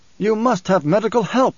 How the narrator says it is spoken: he snapped

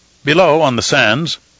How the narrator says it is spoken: the crew captain answered, his voice gruff, his manner annoyingly unimpressed with the importance of the man to whom he was speaking

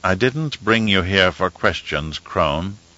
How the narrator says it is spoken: said in a soft tone

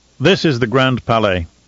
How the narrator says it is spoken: Romber said

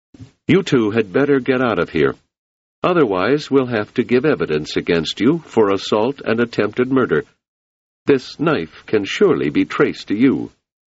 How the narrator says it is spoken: Hummond said sharply

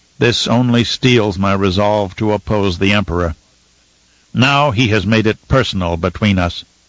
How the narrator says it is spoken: In a measured tone, Romber announced

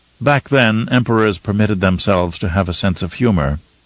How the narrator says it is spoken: she said

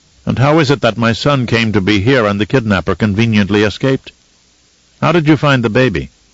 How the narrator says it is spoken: Leto asked in a suspicious tone

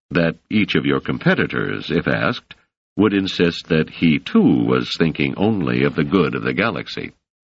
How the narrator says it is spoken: said Selden dryly

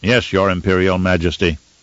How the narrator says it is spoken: said Zum Garon

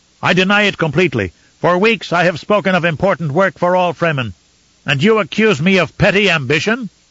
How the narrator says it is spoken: Stilgar shouted then, his voice clear in the huge chamber

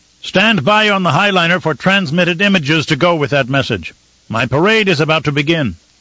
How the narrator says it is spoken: The Baron shouted after her

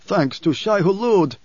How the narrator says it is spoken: Stilgar cried

